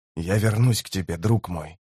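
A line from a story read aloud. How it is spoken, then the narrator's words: Whisper. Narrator (Russian): прошептал Тиблор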